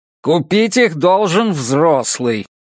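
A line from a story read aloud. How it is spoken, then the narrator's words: Irritated, curt. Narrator (Russian): раздраженно отрезал бармен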